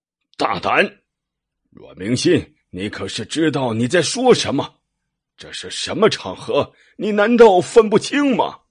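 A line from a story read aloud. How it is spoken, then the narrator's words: Father roaring. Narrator (Chinese): 阮父不由大吼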